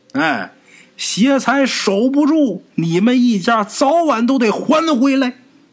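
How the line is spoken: Old woman calling out. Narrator (Chinese): 这瞎老太太在他身后叫

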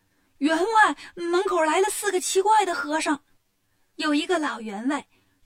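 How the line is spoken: Shouting while running. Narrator (Chinese): 一边跑一边喊

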